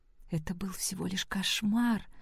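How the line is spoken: Whisper under breath. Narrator (Russian): прошептала она себе под нос

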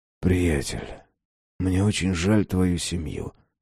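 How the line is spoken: Whisper. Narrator (Russian): прошептал Феликс

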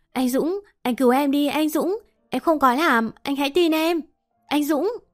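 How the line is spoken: Desperate pleading scream. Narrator (Vietnamese): cô và chị Xuân còn cố quay lại hét lớn

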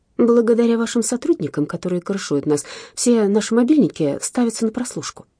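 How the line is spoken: Plain. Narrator (Russian): ответила Марина

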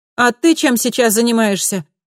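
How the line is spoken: Shout after someone. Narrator (Russian): успела Камила крикнуть вдогонку

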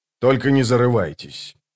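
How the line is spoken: Dry remark. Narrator (Russian): сухо добавил Скворец

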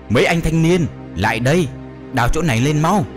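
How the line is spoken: Loud shout. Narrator (Vietnamese): Thầy lĩnh hét to

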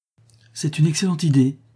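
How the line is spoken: Exclaimed. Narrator (French): s'écria Lucie

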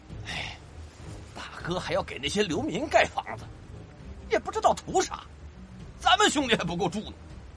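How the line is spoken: Muttered. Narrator (Chinese): 金兰嘀咕道

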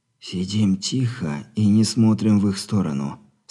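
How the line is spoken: Barely audible through teeth. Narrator (Russian): сквозь зубы, едва слышно, скорее выдохнул, чем проговорил

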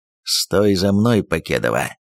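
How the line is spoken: Hoarse rasp. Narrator (Russian): прохрипел Кожан

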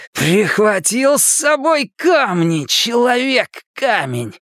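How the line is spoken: Mad roar. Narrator (Russian): проревел Генри

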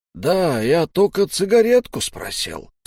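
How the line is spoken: Interjected. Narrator (Russian): вставил Сиплый

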